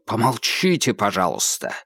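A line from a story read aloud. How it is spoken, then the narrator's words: Bark. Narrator (Russian): рявкнул Холмс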